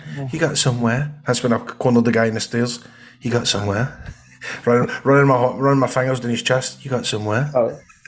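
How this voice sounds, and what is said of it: Put-on Yorkshire accent. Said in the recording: “You still do your Yorkshire accent”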